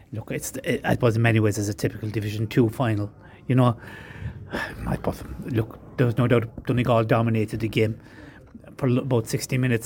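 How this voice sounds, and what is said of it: Irish Kerry accent. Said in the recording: “that's a beautiful Kerry accent”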